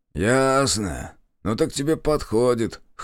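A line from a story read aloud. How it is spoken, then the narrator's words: Grunting. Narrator (Russian): хмыкнул Митрич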